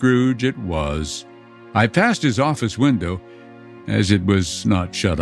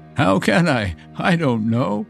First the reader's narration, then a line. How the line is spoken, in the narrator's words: she added in the same breath, laughing